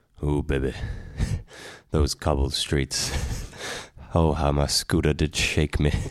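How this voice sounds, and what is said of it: Smooth, soothing radio-style voice. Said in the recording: “The dulcet tones ... quite a good radio voice ... soothing ... Smooth it into me”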